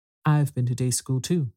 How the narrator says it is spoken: said Alice

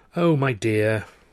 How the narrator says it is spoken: Clara sighed

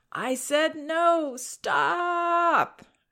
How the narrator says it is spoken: whining and crying

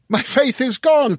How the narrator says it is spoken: cried after one stupefied moment

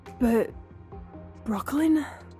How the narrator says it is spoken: Apollo stammered

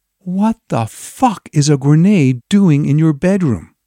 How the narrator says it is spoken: I slowly asked Tom in a hushed voice

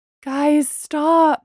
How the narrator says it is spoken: Bree pleaded

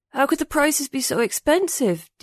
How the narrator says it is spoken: Ding mumbled as he clutched his cheek

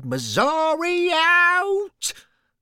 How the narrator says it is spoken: He shouted

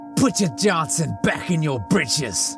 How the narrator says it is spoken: I hollered

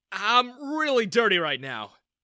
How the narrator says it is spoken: I exclaimed

